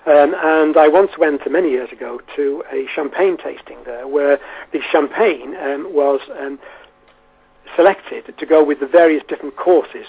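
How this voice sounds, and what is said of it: Wirral English accent. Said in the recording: “I'm actually from the Wirral Peninsula, as you can possibly tell from my accent”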